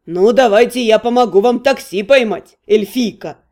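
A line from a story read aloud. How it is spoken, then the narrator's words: Amused snort. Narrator (Russian): Он хмыкнул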